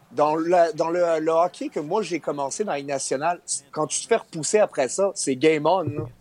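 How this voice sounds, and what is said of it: Strong Québécois French accent. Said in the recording (French): “accent québécois ... est quand même exceptionnel ... plus le temps passe, plus il devient québécois”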